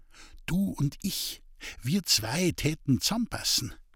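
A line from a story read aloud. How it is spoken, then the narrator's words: Whispering. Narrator (German): ins Ohr wisperte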